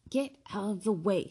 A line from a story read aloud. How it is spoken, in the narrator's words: snapped Ron